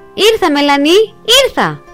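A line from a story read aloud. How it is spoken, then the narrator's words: Happy shout. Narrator (Greek): φώναξε ευτυχισμένος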